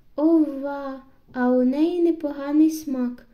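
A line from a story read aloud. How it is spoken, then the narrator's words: Exclaimed. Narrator (Ukrainian): вигукнув Генрі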